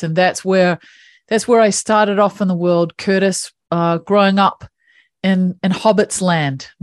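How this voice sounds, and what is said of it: New Zealand accent. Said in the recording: “as you can probably hear, I have this funky little accent that comes from one of the most beautiful countries in the world. I grew up in New Zealand.”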